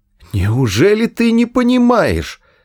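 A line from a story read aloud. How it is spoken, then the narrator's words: Hysterical exclamation. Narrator (Russian): истерически воскликнул Артур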